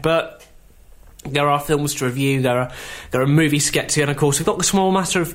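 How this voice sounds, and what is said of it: Voice sounds unwell, not fully recovered. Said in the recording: “You can tell by my voice I'm still not quite 100% there from this cold yet”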